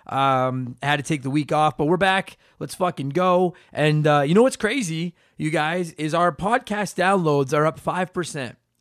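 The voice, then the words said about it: Hoarse, cracking, recovering voice. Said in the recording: “I lost my voice ... You can probably still hear it. I've got a hint of puberty, traces of it still in the old vocal cords there.”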